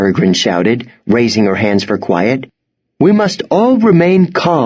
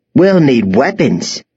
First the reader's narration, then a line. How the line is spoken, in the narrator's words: cried